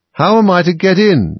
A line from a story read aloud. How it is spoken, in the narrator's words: asked Alice again in a louder tone